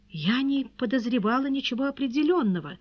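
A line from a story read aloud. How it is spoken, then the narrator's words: Timid babble. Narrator (Russian): пролепетала она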